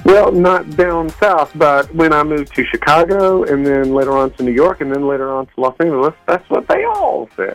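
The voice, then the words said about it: Southern Georgia accent. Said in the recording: “Where's the accent from? ... I'm from Georgia.”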